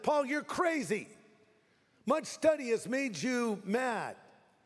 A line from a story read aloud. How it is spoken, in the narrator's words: suddenly Festus shouted